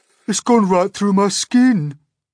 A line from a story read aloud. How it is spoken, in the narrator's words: the earthworm groaned